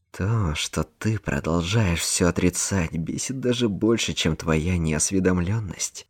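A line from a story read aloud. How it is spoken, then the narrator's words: Through gritted teeth. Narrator (Russian): процедил Рика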